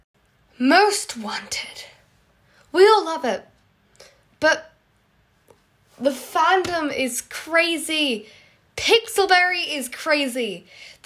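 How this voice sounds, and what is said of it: British accent, congested with cold. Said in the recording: “British accent, with the addition of me having a cold”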